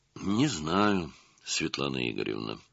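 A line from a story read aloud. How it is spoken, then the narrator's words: Investigator sighing. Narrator (Russian): вздохнул следователь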